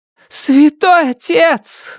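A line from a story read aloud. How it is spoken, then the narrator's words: Shouted. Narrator (Russian): закричала она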